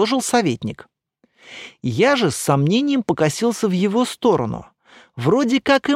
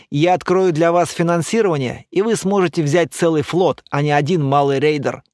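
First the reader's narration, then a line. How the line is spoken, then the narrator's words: Serious after laughing. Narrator (Russian): закончив смеяться, сказал уже серьезный Эр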